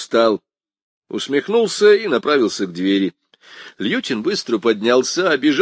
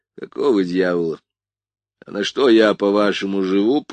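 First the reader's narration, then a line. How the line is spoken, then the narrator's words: Speaking through teeth. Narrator (Russian): процедил я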